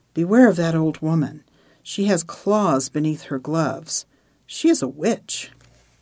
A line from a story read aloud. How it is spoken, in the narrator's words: a father with his boys passed her, he whispered to them